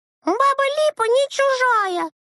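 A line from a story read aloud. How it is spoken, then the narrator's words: Shouted. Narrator (Russian): закричала Анютка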